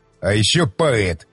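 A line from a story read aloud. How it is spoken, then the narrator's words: Contemptuous snort. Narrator (Russian): презрительно фыркнул Щербатин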